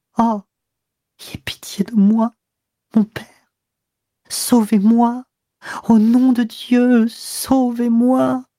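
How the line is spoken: Sobbing. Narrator (French): Et sanglotant

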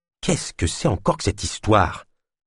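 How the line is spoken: Mumbled. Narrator (French): marmonna Ulma

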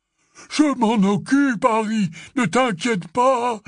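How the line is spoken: Exclaiming. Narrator (French): s'écria Hagrid

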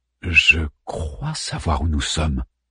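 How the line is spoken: Murmur. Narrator (French): murmura Harman

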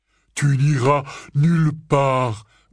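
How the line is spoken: Growled. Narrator (French): grogna Hagrid

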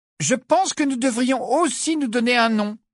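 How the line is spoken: Trumpeting voice. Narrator (French): dit d'une voix claironnante

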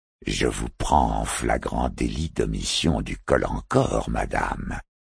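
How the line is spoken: Insinuating low voice. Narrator (French): insinua-t-il à mi-voix

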